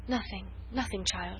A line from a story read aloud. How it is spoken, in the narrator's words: she murmured, as in a dream